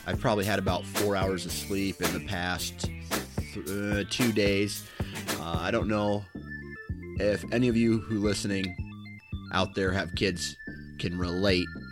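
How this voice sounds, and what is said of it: Tired, exhausted-sounding voice. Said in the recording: “If I sound tired, it's because I am tired. I'm freaking exhausted.”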